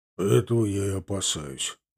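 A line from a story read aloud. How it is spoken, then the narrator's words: Muttering into mustache. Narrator (Russian): пробурчал усы Миловидов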